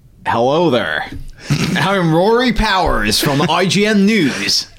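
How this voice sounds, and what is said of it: Imitates another person's voice. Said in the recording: “Do you want to do an impression? ... You kind of sound like my dad. ... terrible impressions”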